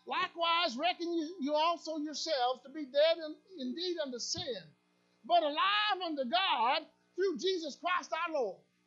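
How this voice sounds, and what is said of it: Put-on Southern American accent. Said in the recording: “I'm on purpose. Southern. ... A nice southern accent. ... not bad for a good northern boy”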